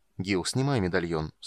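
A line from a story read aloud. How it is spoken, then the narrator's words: Calm, patient repetition. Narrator (Russian): спокойно и терпеливо повторил полуэльф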